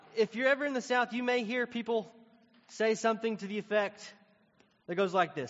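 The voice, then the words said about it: Tennessee Southern accent. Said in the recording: “I'm from Tennessee. You may have caught that from my accent.”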